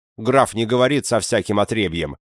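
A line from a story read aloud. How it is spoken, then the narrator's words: Barking. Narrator (Russian): рявкнул товарищ лейтенанта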